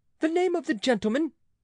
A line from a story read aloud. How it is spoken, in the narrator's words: cried the king